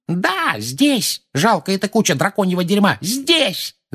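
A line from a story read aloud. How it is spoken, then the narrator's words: Furious yell. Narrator (Russian): заорала миссис Фиг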